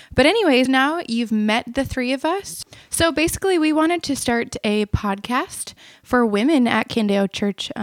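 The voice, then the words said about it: Minnesotan accent, noticeable in O sounds. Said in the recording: “I'm from Minnesota... You might notice it a little bit in her accent... sorry if you hear it in the O's”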